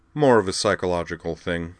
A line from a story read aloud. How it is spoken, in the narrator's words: said Garin dryly